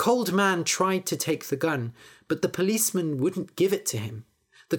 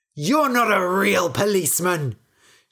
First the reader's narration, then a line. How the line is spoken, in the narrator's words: shouted the cold man